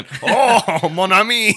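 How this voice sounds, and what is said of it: Fake French accent. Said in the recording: “He puts on a fake French accent.”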